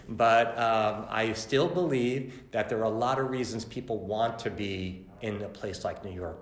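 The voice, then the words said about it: New York accent. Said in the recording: “I'm a lifelong New Yorker, maybe the accent gave it away”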